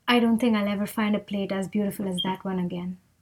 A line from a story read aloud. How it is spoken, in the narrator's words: Zina whispered to her father